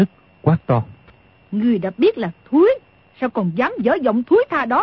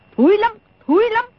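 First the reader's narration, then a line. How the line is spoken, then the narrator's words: Angry interruption. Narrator (Vietnamese): Đồng Mổ tức giận ngắt lời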